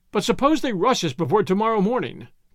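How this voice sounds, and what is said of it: Petulant, whiny character voice. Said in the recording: “in a petulant voice”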